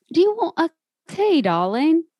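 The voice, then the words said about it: Put-on English accent. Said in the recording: “I love using my English accent ... It's very good.”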